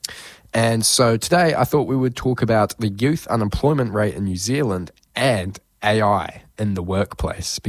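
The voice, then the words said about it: Sniffly, congested sick-sounding voice. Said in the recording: “feeling a little sick, got a bit of a sniffly nose. You can probably hear it in my voice.”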